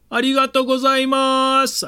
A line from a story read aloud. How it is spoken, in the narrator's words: I yelled to the man